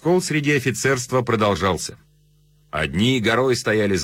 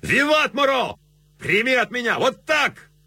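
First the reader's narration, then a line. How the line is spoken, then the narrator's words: Excited shouting by officers. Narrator (Russian): Офицеры Рейнской армии кричали в азарте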